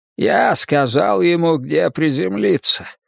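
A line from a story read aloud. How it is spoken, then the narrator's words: Hoarse synthesized old voice. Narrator (Russian): прохрипел синтезатор голосом старого поэта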